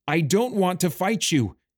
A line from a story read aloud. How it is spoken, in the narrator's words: he cried